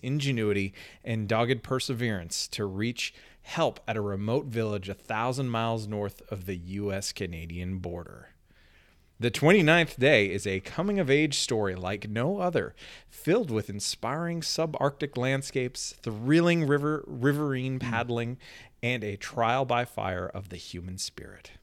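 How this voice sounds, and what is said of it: Announcer-style radio voice. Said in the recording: “I even got my radio voice on there.”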